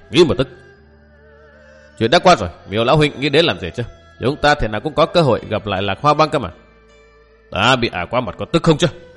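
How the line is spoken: Resentful old man. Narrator (Vietnamese): Lão hậm hực nói

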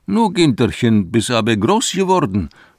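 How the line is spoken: Exclaiming. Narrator (German): ruft schließlich aus

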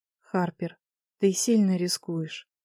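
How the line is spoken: Sad conclusion. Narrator (Russian): заключила она, печально посмотрев

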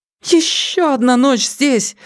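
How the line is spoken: Sudden cry. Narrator (Russian): вскрикнула мисс Клейторн

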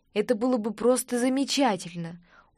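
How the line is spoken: Weary exhale. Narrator (Russian): устало выдохнула

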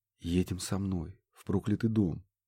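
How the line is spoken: Said quietly. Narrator (Russian): тихо проронил он

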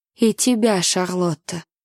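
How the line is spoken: Quiet reply. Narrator (Russian): тихо отозвался Люсьен

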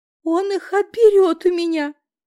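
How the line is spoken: Sobbing, maternal distress. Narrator (Russian): Зарыдала я, остро осознав, что во мне проснулся материнский инстинкт

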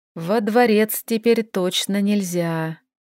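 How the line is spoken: Heavy sigh. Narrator (Russian): тяжело вздохнул Регандил

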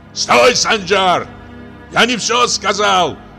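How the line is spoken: Shouting after someone. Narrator (Russian): крикнул отец вдогонку сыну

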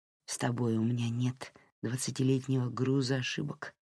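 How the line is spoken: Whisper. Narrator (Russian): прошептал Дерек

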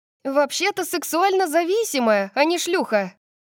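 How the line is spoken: Shouted after someone. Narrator (Russian): крикнула я ей вслед

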